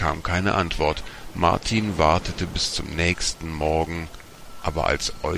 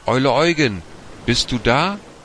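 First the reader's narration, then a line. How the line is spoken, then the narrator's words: Calling out. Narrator (German): rief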